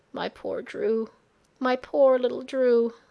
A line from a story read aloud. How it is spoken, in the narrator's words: the woman sobbed quietly